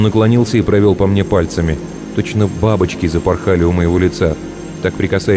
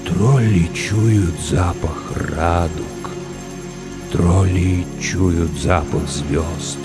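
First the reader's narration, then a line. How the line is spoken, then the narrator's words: Sad whisper. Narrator (Russian): печально прошептало сказочное существо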